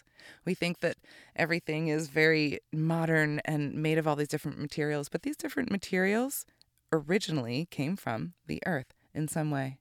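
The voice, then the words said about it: Slightly scratchy voice. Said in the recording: “my voice is a little scratchy”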